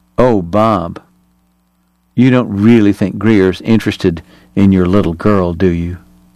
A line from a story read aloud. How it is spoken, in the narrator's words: Eyes wide in merry astonishment, she purred